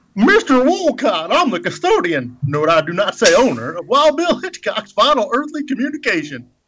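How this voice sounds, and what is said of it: Impersonated character voice. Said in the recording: “Get that voice all cranked up and ready to go. Impersonation, that is.”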